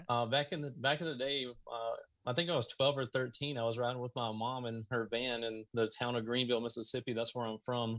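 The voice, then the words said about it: Southern American twang. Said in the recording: “You can tell by your hick voice. ... I got that Southern twang going on. Even though like a lot of people have said, I've lost a lot of it”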